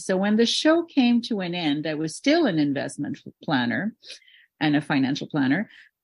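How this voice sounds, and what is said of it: Slight French accent. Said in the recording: “I'm French. ... You probably hear a little accent of mine every now and then. It'll come through.”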